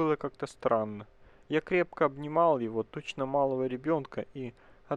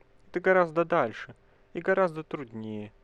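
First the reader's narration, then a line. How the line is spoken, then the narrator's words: Sad. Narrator (Russian): прибавил печально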